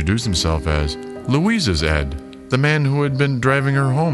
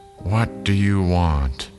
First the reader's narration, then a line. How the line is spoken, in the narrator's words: An old woman answered in a tired voice